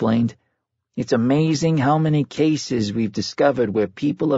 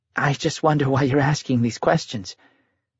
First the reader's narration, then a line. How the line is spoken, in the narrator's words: Janet said nervously